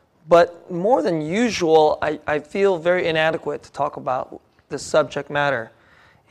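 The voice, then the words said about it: Voice slightly off, not fully recovered. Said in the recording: “you might be able to hear my voice a little off. Not quite, my voice isn't quite back from my sickness.”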